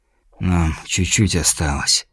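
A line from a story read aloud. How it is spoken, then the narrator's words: Quiet self-encouraging mutter. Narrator (Russian): пробормотал он тихо, пытаясь приободриться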